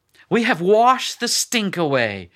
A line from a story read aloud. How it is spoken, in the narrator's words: exclaimed Lily's mother